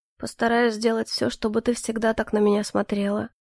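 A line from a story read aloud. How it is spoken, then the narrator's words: Very quiet but firm. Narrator (Russian): очень тихо, но твердо произнес он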